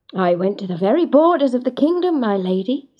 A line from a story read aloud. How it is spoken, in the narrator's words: he said